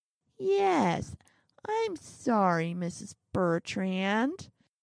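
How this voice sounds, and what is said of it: Nasal, whiny teacher's-pet voice. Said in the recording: “in that nasal voice, which makes him sound like one of those teacher's pet type kids”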